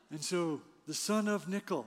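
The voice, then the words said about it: Poor impression of another person's voice. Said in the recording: “terrible Jack Nicholson impression”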